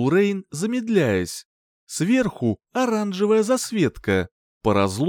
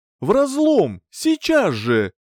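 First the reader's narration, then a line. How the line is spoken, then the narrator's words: Shouting. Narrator (Russian): крикнул Джерт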